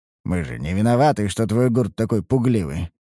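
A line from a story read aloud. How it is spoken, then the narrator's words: Snorting. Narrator (Russian): хмыкнул я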